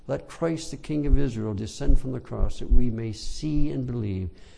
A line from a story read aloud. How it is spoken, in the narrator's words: cried to him mockingly as he hung on the cross